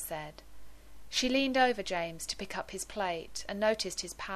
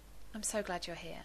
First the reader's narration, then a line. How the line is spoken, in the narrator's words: said softly